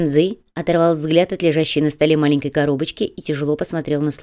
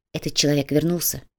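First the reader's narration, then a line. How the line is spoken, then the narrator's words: Quiet. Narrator (Russian): тихо произнес тот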